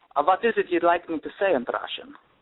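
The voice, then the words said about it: Put-on Russian accent, Transylvanian-tinged. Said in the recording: “Can I hear your Russian accent?... It's a little Transylvanian there.”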